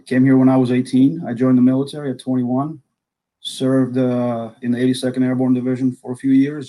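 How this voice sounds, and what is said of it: Accent from the Soviet Union. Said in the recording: “I was actually born and raised in the Soviet Union. You might tell by my accent”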